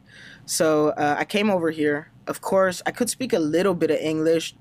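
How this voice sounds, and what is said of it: Hispanic-influenced English accent. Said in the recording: “that's kind of why I have this accent, because I was working with just Hispanic guys and they taught me English ... I adopted kind of low-key that accent from those guys”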